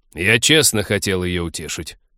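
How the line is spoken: Angry interruption. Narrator (Russian): сердито перебил друга Тед

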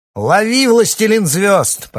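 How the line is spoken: Shrill shout. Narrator (Russian): пронзительно крикнул ему Яхан

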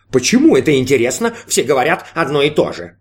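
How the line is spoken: Snide snort. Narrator (Russian): ехидно хмыкнул голос

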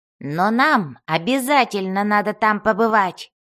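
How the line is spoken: Barking. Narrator (Russian): рявкнул Бреннар

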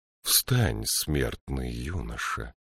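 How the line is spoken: Quiet, low, even voice. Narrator (Russian): негромко сказала она, и у нее оказался низкий и ровный голос

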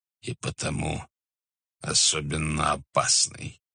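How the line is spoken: Gloomy reply. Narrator (Russian): ответил тот мрачно

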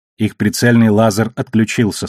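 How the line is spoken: Plain. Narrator (Russian): сказала Наоми

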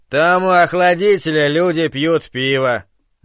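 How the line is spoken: Gloomy, scandalized. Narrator (Russian): мрачно произнес Браун, тоном человека, сообщающего, что на церковной вечеринке показывали порнографический фильм

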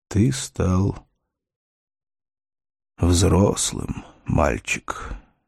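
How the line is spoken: Quiet. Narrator (Russian): тихо сказал Морн

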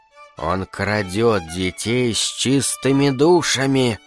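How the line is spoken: Mysterious whisper. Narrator (Russian): таинственно прошептала Илона

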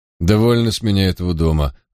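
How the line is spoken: Irritated tone. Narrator (Russian): раздраженным тоном проговорил Квинтин

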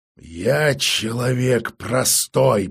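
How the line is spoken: Hiss. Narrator (Russian): прошипел мастер

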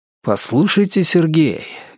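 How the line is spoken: Unexpectedly heartfelt tone. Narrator (Russian): говорю я неожиданно задушевным тоном

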